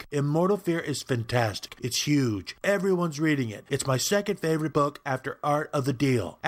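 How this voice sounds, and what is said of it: Donald Trump impression. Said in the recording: “Celebrity impersonation. ... Hi, Donald.”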